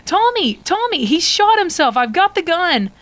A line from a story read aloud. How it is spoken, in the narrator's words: You shout out